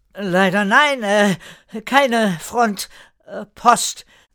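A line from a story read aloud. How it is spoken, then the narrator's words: Sad, awkward call. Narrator (German): rief traurig und unbeholfen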